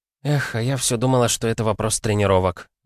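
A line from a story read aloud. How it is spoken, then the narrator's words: Sighed. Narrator (Russian): вздохнула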